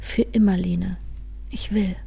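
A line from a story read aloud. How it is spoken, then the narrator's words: Gentle reply. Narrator (German): erwiderte sanft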